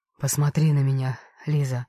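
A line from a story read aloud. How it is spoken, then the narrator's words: Hoarse voice. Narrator (Russian): хрипло сказал Карим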